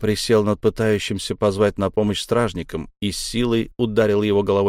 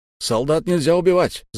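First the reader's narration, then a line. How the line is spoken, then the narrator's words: Shouting. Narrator (Russian): закричал Буран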